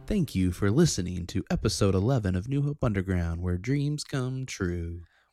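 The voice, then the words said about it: Announcer-style radio voice. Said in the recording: “that was my radio voice”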